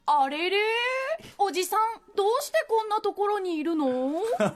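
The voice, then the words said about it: Imitates a child cartoon character. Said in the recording (Japanese): “やってください、コナ君のものまね”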